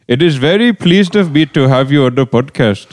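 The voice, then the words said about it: Put-on Indian English accent. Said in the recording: “Indian English. ... doing that voice.”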